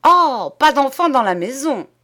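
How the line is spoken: Shouting. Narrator (French): cria-t-elle

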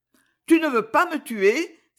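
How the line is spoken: Exclaimed. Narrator (French): s'écria-t-elle

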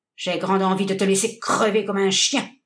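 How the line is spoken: Grumbled. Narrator (French): grommela le Canadien

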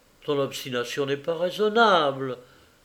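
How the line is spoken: Stammering, averted. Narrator (French): balbutia-t-il en détournant la tête

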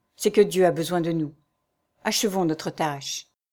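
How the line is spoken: Murmuring. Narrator (French): murmura l'accusant

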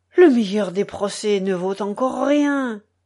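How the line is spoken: Doctor exclaiming. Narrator (French): s'écria le docteur

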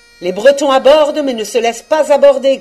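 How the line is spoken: Shouted. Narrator (French): cria Thor et Pen

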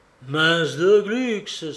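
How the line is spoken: Child's exclamation. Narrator (French): s'exclama le môme Réglisse

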